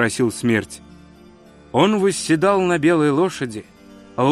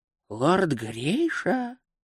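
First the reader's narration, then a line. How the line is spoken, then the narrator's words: Old man's whisper. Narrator (Russian): прошептал старый хранитель традиций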